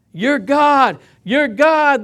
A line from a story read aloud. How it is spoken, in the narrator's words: they shouted